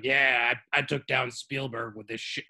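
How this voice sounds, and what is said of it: Harvey Weinstein impression. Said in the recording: “did a perfect Harvey Weinstein impression”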